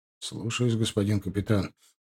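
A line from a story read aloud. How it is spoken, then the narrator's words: Mumble. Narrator (Russian): пробормотал Тимофей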